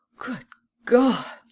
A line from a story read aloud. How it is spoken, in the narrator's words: she exclaimed